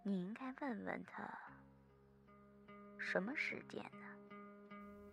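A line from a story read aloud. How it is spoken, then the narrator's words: Muttering. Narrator (Chinese): 金宝 又嘀咕了起来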